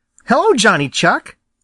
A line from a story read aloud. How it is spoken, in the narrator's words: cried Peter